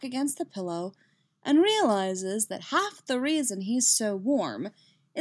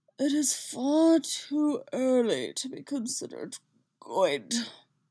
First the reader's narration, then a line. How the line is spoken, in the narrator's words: Obi-Wan grumbles